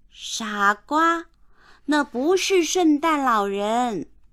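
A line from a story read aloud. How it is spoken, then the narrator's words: Shouting. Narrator (Chinese): 凯蒂大喊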